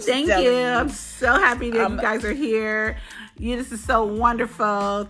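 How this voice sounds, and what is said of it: Put-on fake sweet voice. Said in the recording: “fake voice ... Becky Dick sucking voice”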